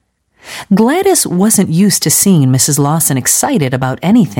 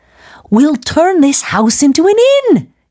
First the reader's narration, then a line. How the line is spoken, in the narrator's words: exclaimed Mrs